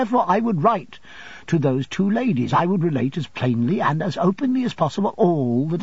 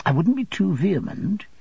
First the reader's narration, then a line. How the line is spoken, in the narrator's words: said Agnes gently